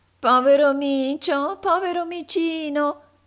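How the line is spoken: Angry nasal woman's shout. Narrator (Italian): gridò tutta irata una vecchia ragazza dalla voce nasale

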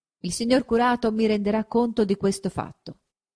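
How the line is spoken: Plain. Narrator (Italian): disse il cardinale

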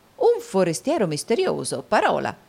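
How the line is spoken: Exclaiming. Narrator (Italian): esclamò il baronetto Mulberry

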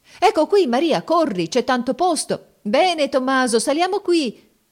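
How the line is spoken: Shouted by the crowd. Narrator (Italian): si gridava

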